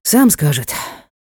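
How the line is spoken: Sighing. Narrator (Russian): вздохнул Ник

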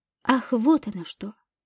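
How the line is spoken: Muttered. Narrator (Russian): пробормотала Подольская

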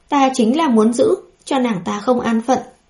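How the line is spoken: Smiling. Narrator (Vietnamese): Bùi Nguyên Ca mỉm cười

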